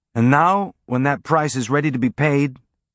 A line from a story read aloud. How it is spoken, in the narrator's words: Amos said, his tone friendly and conversational